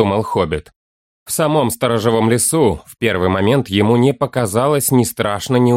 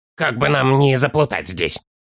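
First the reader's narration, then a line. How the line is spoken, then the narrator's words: Child's worried, grumbling mutter. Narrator (Russian): буркнул малыш с чрезвычайно озабоченным и недовольным видом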